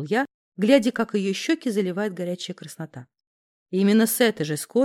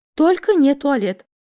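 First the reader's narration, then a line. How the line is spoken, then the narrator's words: Moaning. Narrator (Russian): простонала девка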